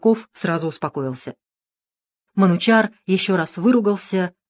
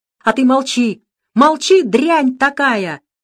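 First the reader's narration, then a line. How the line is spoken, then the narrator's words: Venting frustrated yell. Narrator (Russian): заорал Русаков, обрадованный тем, что есть на ком сорвать свое раздражение и отчаяние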